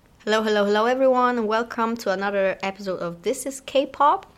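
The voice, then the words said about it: Voice sounds unwell, not recovered. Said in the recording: “sorry for my voice because apparently I still haven't healed properly”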